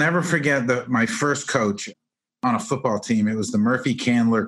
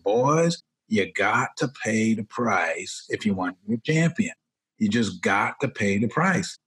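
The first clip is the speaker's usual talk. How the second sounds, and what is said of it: Quoted line in Southern accent. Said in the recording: “he was from Atlanta, and he had a real Southern accent.”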